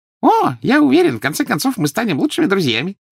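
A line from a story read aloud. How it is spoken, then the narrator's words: Cheerful promise. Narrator (Russian): весело пообещал Дингл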